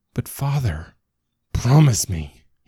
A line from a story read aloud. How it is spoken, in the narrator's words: wheezes